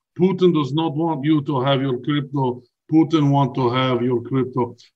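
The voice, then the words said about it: Put-on Russian accent. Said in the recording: “now we're talking Russian accent”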